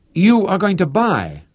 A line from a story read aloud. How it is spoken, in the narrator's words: he exclaimed